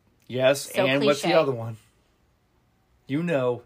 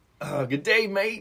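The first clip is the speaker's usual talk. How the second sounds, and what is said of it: Bad put-on Australian accent. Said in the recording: “he's not going to do an Australian accent ... That's so bad. It's so bad. ... That's horrendous.”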